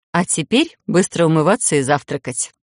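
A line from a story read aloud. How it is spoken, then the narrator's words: Mock-stern command. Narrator (Russian): приказала нарочито строго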